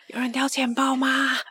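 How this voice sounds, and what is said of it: Quiet, breathy whispered question. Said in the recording (Chinese): “你小小声的问，大家都听得到吧？ ... 你用气音讲，我都听得到”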